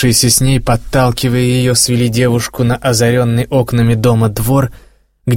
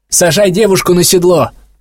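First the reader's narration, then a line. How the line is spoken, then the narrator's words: Shout. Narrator (Russian): крикнул другой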